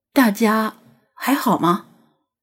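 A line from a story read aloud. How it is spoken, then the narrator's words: Murmuring. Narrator (Chinese): 他喃喃说道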